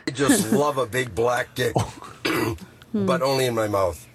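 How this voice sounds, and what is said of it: Canadian accent. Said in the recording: “his Canadian accent”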